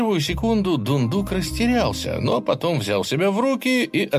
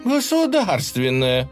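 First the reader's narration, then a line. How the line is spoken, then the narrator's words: Laughing loudly. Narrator (Russian): расхохоталась Глафира Ивановна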